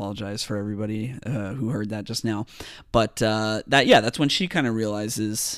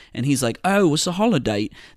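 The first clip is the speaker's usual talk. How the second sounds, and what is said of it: Poor put-on Australian accent. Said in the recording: “That's a terrible Australian accent.”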